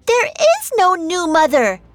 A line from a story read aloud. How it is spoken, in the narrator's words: she screamed